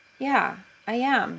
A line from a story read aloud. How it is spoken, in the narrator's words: he says, hoping his cheeks aren't colored too brightly